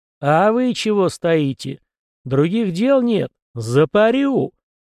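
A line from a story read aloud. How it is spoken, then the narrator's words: Man roaring. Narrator (Russian): взревел мужчина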